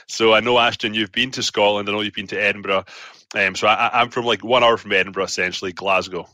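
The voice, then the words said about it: Glaswegian Scottish accent. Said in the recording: “the accent is not going anywhere. ... The accent is still firmly Glaswegian.”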